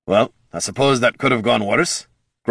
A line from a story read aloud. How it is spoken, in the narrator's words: grumbled Gorm